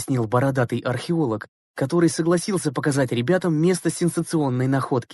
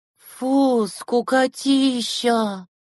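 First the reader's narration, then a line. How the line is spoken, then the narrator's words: Loud bored yawn. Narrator (Russian): громко зевнула Дорошевич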